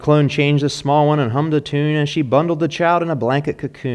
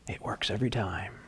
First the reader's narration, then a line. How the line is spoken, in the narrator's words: Santa whispered